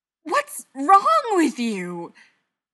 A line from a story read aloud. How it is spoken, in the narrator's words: Mikey knew he shouldn't screech